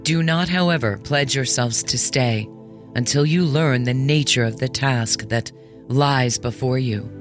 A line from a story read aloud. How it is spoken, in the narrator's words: said